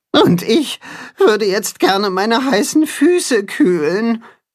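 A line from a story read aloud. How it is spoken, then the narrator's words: Groan. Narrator (German): stöhnt das Katzenhuhn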